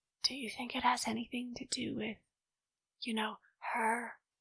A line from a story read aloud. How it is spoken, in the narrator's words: Amy whispered